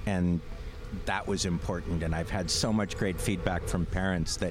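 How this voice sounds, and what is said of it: Voice choked up with emotion. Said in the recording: “I get all choked up.”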